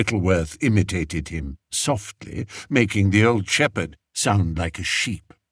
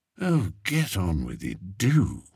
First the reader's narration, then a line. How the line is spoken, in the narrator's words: muttered Spittleworth, his long nose still buried in his handkerchief